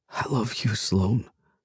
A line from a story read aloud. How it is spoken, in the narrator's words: I whisper